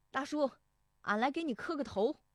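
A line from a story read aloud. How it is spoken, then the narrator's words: Young man calling out. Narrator (Chinese): 石德义19岁那年，进门就喊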